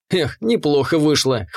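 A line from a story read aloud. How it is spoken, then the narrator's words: Amused grunt. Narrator (Russian): хмыкнул я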